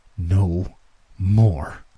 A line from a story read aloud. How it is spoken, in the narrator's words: I said through gritted teeth